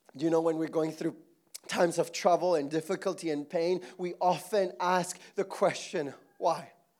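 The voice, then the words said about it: Strained, losing voice. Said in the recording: “Oh my goodness, my voice is gone.”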